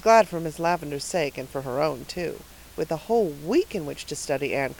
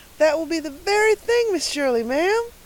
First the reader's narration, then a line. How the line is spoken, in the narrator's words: exclaimed Carlotta the Fourth in rapture